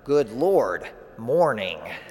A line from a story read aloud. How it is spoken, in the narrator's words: they mutter